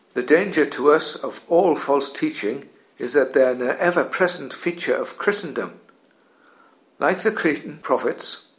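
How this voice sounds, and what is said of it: Geordie Newcastle English accent. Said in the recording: “you'll have gathered from my accent that I'm from Newcastle ... a stereotypical Geordie”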